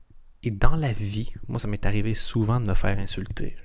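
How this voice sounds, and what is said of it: Canadian French accent. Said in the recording (French): “Je suis canadien ... on comprend pas quand tu parles ... me suis fait insulter sur mon accent”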